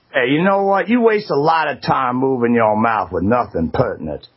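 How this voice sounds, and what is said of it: Put-on Southern Augusta accent. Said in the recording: “all of a sudden sound like he's from Augusta ... He's like, boy, I say ... Augusta accent ... he's trying”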